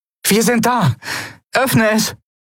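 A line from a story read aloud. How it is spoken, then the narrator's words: Called out. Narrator (German): rief Endriel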